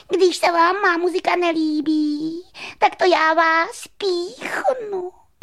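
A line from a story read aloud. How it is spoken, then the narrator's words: Mosquito shouting. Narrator (Czech): křikl komár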